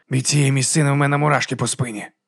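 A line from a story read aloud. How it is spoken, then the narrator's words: Quiet, uneasy. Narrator (Ukrainian): тихо сказав Леб'є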